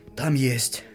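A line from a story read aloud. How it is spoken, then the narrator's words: Hoarse whisper. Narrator (Russian): осипшим голосом прошептала Оля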